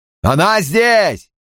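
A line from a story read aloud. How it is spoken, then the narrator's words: Yelled into phone. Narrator (Russian): заорал он в трубку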